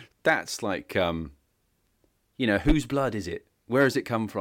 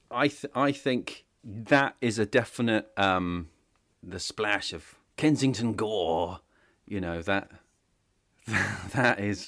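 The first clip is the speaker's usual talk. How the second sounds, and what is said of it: Put-on character voice. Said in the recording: “I can't stop doing that voice. I've been watching Dracula.”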